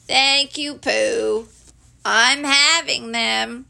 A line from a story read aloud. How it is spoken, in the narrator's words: said gloomily